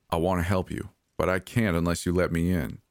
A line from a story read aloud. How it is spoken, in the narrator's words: he said flatly